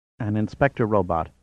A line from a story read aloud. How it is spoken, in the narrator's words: said Nogami softly